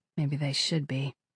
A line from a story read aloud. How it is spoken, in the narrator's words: Kira muttered